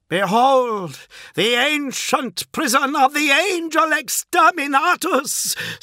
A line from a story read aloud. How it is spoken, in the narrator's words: screamed Fulgrim